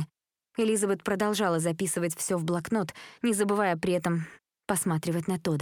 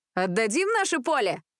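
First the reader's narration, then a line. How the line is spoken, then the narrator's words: Shout. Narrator (Russian): крикнул Кен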